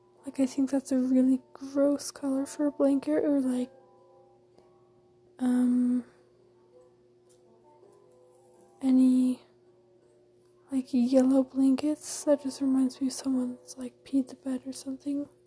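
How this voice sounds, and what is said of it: Quiet, strained voice. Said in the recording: “Sorry I'm talking so quietly. ... My voice is strained from singing all day.”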